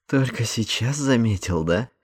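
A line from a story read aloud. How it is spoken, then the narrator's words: Snorting. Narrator (Russian): хмыкнул Эндрю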